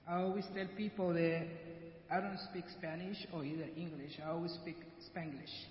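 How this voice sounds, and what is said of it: Heavy Guatemalan Spanish accent. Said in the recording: “I'm original from Guatemala, and that's why I have a really heavy accent.”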